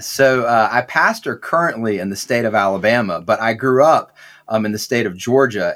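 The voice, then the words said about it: Southern American accent. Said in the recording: “as some of our listeners are probably figuring out from your accent, you are from the South.”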